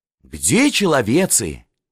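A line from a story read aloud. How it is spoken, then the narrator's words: Lieutenant sighing. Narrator (Russian): вздохнул лейтенант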